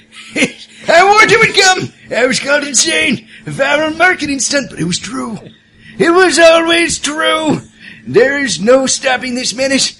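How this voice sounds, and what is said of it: Crazed old sailor voice. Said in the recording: “do my crazy sailor voice.”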